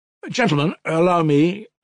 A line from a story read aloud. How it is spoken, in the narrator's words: cried Mitya suddenly